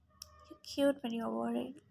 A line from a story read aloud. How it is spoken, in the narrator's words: she muttered